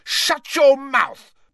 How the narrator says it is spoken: bellowed Ron, bypassing red and turning maroon

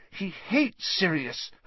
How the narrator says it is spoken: Hermione said desperately

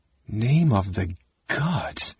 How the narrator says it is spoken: Tanis breathed, recognizing him at last

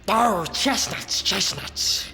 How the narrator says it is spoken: he hissed

